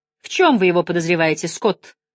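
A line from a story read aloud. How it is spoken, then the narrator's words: Irritated question. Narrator (Russian): раздраженно спросил капитан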